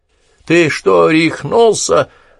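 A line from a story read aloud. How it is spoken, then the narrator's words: Yelling. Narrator (Russian): заорал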